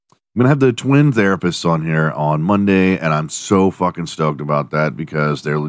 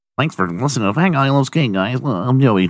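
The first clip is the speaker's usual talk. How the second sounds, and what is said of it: Put-on super nerdy voice. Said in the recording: “Do I sound nerdy? Do I sound like super nerdy tonight? ... Am I doing that voice so much that it's becoming like my normal speaking voice?”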